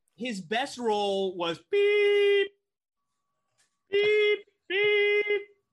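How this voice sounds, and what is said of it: Imitates beeping sound of character. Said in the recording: “my Captain Pike impersonation ... I did a Captain Pike impersonation.”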